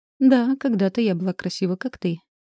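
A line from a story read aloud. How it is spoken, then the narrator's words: Croaking laugh. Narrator (Russian): каркающе рассмеялась она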